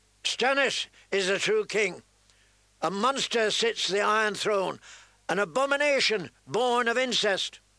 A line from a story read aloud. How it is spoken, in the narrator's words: a knight of solemn mien, with a fiery heart on his surcoat, shouted out